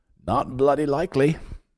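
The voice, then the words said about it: Bad fake British accent. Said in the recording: “It's my British accent... I have the worst British accent, fake British accent”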